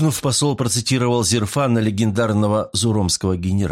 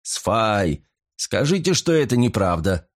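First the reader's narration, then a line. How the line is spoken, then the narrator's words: Laughing. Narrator (Russian): рассмеялся Филиппа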